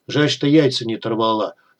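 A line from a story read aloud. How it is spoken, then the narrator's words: Hoarse sympathetic voice. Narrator (Russian): хрипло посочувствовал Тестомес голосом подручного мессира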